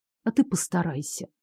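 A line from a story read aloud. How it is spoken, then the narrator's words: Gentle request. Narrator (Russian): мягко попросил меня Лоренс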